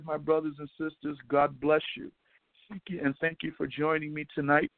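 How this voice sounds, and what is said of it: Slightly hoarse, worn voice. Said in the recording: “Losing my voice a little bit. I talk too much”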